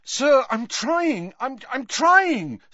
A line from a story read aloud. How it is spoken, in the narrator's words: said Harry desperately